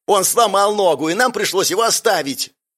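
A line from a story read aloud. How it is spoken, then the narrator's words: Hysterical yell. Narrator (Russian): Истерично заорал первый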